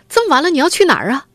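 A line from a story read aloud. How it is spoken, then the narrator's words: Mother calling from behind. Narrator (Chinese): 母亲在后面一路跟着喊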